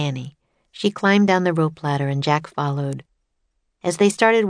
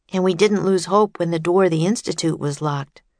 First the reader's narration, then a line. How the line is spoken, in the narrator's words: said Jack